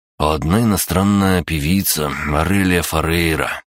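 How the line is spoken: Dreamy drawl with sigh. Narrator (Russian): протянул Саша, мечтательно вздохнул

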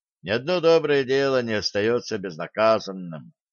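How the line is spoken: Heavy sigh. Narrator (Russian): тяжко вздохнул Блад

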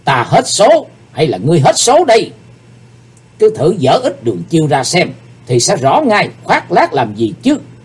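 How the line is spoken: Hateful murderous yell. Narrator (Vietnamese): Sát khí bốc ngục lên trên gương mặt của Chí Tôn, chàng căm hận hét

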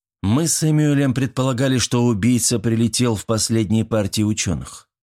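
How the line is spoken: Plain. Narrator (Russian): сказала Коллинз

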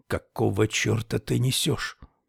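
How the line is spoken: Angry whisper. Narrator (Russian): Хови снизил голос до шепота и сердито произнес

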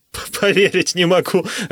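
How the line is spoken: Laughing. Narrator (Russian): рассмеялся я

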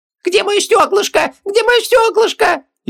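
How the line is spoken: Hysterical shriek. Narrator (Russian): Истерично завизжал Хубаксис

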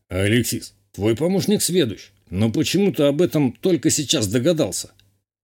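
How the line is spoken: Scoffing grunt. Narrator (Russian): хмыкнул горец

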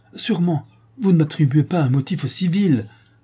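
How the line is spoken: Exclaimed. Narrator (French): s'écria-t-il

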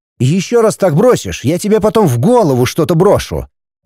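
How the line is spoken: Angry. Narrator (Russian): зло сказал он скрипачу

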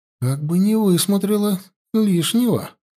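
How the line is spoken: Alarmed, trembling exclamation. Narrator (Russian): встревожилась Янди, дрожащим голосом воскликнула

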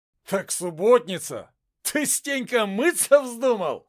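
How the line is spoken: Laughing, robber. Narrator (Russian): смеялся один из разбойников

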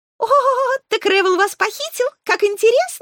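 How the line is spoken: Giggling. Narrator (Russian): захихикала хохотушка

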